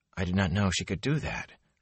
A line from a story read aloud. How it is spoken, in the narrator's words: Rand said softly to Lan, his cheeks hot